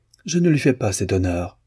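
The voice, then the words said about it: Disdainful tone. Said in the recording (French): “avec un accent de dédain incomparable”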